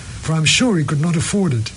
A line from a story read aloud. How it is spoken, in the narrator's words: said Catherine warmly